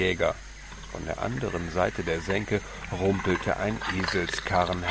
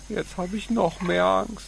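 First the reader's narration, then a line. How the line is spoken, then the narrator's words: Whimpering. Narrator (German): Paco wimmerte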